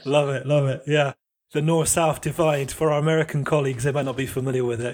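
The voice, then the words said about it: Posh southern English accent. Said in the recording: “you do sound posh, but you're a southerner”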